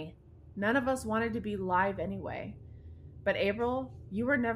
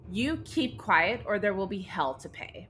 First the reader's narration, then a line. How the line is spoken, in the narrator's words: Andrew turned and angrily spat out at the group the words